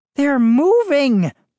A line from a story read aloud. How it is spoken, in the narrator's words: Moose cried, too loudly